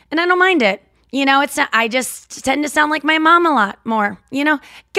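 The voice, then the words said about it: Midwestern St. Louis accent. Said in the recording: “my Midwest accent is kicking right now. Like it is back in full force.”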